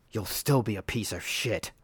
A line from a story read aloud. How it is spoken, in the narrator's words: Martin spat